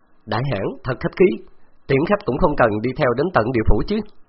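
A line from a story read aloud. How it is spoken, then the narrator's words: Loud laughing. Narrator (Vietnamese): Khấu Trọng cười lớn nói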